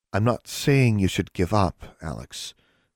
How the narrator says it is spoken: Anna said hesitantly

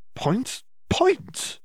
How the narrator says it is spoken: Hermione exclaimed

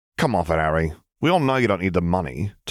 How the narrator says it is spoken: Tiberius snorted

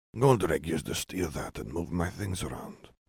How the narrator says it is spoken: Salazar murmured

